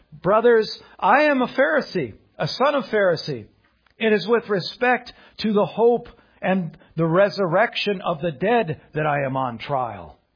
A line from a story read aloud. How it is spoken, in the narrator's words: he cried out in the council